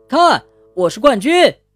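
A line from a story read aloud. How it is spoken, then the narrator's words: Joyful shout. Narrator (Chinese): 对着还在海里的伙伴们快活地叫道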